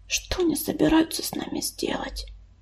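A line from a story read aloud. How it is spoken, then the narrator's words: Whispered question. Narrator (Russian): шепотом спросила Яролика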